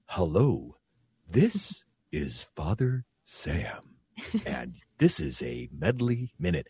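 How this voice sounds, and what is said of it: Very slow imitated voice. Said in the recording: “I think I'm going to try to imitate him ... why are you talking so slow? ... It was kind of creepy how slow you were talking”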